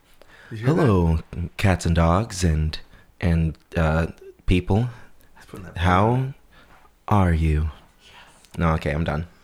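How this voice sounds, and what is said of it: Put-on radio announcer voice. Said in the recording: “Should I use my radio voice? ... Oh, that sounds good.”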